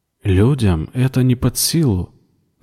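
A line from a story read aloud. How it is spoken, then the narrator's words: Calm, judge-like verdict. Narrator (Russian): заметила Кара спокойно, как судья, выносящий приговор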